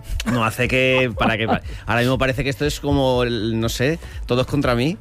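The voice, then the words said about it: Deep, rough voice with a cold. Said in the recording (Spanish): “parece que ha venido con algún tipo de resfriado ... qué voz de hombre. ¿Has visto qué trae hoy de hombre?”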